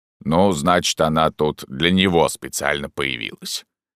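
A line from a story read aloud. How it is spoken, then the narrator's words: Chuckling. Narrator (Russian): хохотнул Порт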